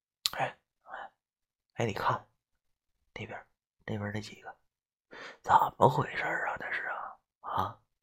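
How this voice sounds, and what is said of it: Quiet, hushed speech. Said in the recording (Chinese): “小声对我旁边的竹子说道”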